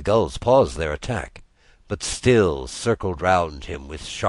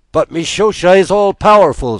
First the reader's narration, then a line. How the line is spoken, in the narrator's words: screamed the gulls